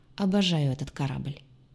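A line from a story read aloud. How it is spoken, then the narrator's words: Gruff mutter. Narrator (Russian): буркнул капитан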